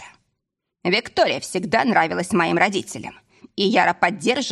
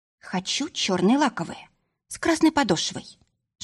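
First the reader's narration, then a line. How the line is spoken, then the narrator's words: Whisper. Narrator (Russian): шепнула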